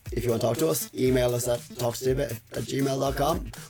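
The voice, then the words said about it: Strained, nearly lost voice. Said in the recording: “My voice is gone”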